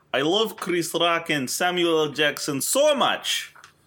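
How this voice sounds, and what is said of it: Put-on Russian woman's accent. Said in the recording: “I'll do this in my Russian woman accent.”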